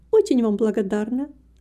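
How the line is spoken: Plain. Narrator (Russian): ответила Гертруда

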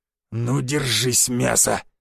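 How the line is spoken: Beast's growl. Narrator (Russian): зарычал зверь

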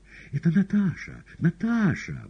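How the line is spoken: Exclamation. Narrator (Russian): воскликнула Маргарита

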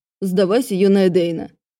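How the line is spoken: Mock growl. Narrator (Russian): притворно зарычал Джеспер

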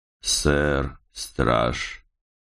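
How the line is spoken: Icy voice. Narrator (Russian): ответил ледяным голосом

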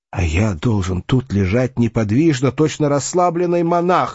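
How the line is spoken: Exclaiming. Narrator (Russian): воскликнула Эвенга

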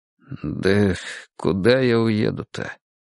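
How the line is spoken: Gruff mutter. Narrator (Russian): буркнул Николай Степанович

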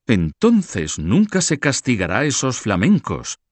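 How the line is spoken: Exclamation. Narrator (Spanish): exclamó Carlos de la Marche

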